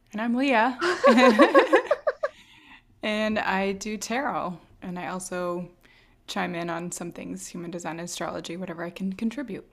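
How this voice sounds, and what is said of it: Raspy, scratchy voice. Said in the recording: “My raspy voice today. It's coming in and out of being used all day long. ... I had some sort of a scratchy throat today.”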